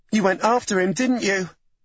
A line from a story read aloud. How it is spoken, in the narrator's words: Lexi blurted the words out